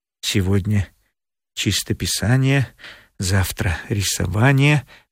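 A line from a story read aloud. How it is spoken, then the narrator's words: Muttering. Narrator (Russian): бормотал Борис Иванович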